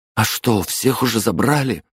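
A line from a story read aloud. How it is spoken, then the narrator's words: Frightened question. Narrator (Russian): спросил, испуганно оглядываясь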